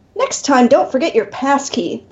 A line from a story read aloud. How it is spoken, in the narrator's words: the snooty clerk snaps